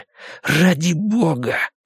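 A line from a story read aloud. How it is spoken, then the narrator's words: Hissed. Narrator (Russian): прошипел Рой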